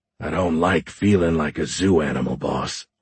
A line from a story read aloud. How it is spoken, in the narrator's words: Horn growled